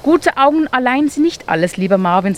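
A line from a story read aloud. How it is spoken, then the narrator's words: Plain. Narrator (German): sagte Eduard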